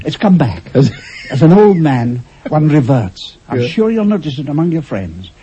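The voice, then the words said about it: Scottish accent. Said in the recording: “your Scots accent”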